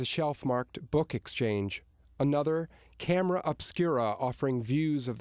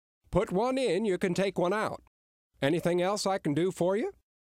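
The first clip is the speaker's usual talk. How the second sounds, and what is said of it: Strong Maine accent. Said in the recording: “his strong Maine accent”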